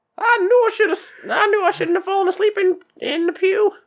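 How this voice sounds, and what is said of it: Character voice with put-on accent. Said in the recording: “I don't know why we gave him an accent. Copperhead doesn't have one”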